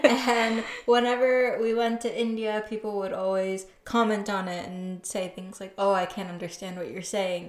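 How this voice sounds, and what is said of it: American accent. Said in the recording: “I have an American accent, ... as really ... you can tell.”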